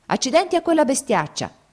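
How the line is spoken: Shouted. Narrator (Italian): gridò

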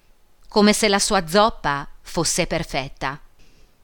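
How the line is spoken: Nasty voice. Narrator (Italian): disse con voce cattiva

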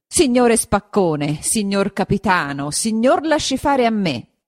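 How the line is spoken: Said or shouted. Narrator (Italian): gli disse o gli gridò

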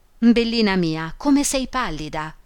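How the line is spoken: Baroness exclaiming. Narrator (Italian): esclamò la baronessa

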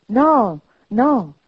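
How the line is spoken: Exclaimed. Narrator (Italian): esclamò Scrooge

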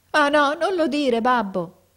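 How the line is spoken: Son crying out, sobbing. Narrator (Italian): gridò il figliuolo scoppiando in pianto

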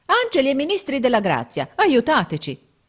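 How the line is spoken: Exclaimed. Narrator (Italian): esclamò Giorgio

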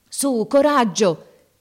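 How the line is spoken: Shouting. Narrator (Italian): gridava

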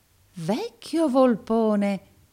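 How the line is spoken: Peer's exclamation. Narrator (Italian): esclamò il pari Verisoft

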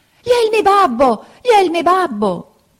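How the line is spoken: Very shrill scream. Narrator (Italian): cacciò un urlo acutissimo, gridando

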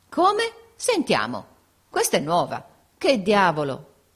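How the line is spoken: Group exclaiming. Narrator (Italian): esclamarono tutti

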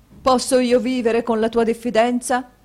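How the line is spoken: Husband exclaims. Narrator (Italian): esclamò il marito

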